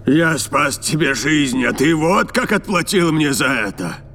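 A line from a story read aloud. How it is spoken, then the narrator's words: Growled. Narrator (Russian): прорычал он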